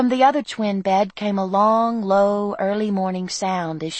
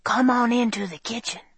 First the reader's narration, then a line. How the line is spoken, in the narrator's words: whispered Ruth